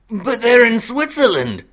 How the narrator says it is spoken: Sirius exclaimed

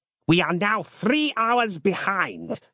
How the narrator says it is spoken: snapped Harland moodily

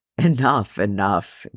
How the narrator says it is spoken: Gimli laughed

